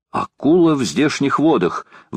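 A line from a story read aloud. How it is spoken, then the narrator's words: Exclamation. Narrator (Russian): воскликнул лорд Гленарван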